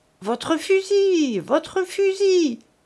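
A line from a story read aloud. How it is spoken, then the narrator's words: Faint, feeble cry. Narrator (French): cria la pauvre femme d'une voix éteinte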